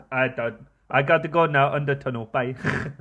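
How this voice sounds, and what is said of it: Exaggerated put-on Indian accent. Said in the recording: “Mig from Bombay ... Offensive accent of the night ... such an offensive accent”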